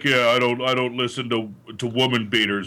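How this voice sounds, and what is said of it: Imitates another person's voice. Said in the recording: “That's my impression of Jared... you got to sound like a little more like Slade Blade”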